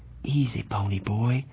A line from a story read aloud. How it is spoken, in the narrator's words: he said softly